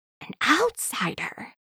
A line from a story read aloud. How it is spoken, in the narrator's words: they whisper